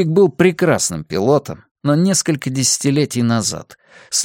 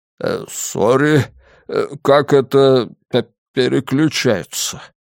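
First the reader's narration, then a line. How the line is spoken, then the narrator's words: Stammering. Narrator (Russian): послышался запинающийся голос Германа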